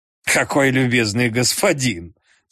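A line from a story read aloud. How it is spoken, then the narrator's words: Laughing. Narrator (Russian): смеясь сказал Холмс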